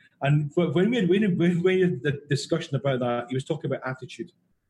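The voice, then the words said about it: Glaswegian Scottish accent. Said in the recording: “when he heard my accent was, Glasgow's the New York of Scotland”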